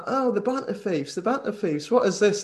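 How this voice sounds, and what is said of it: Poor imitation of another person's accent. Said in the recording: “That's a shite accent”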